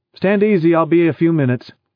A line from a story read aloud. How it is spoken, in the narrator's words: Jerry called out